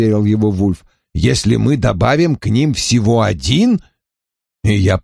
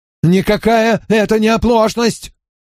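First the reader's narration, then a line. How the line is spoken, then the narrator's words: Shrill shout. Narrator (Russian): пронзительно выкрикнул Ллойд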